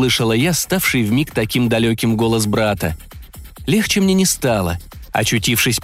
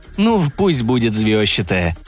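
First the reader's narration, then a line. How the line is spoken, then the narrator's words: Laughing. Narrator (Russian): засмеялся брат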